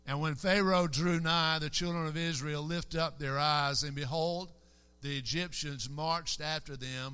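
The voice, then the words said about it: Southern American accent. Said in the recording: “It's kind of hard for a southern accent to get out there”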